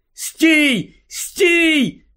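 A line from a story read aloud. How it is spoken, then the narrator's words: Shouted. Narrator (Ukrainian): закричав Гаррі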